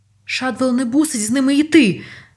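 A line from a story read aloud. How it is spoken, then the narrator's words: Cried out. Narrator (Ukrainian): скрикнув Ньют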